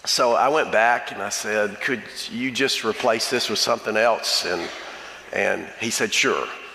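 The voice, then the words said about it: Slightly hoarse voice. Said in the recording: “If I'm a little hoarse, it's because it was a 15-hour day and I'm 70.”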